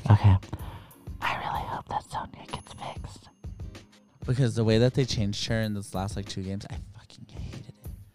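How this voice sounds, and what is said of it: Whispering. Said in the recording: “That's why I'm whispering to you right now.”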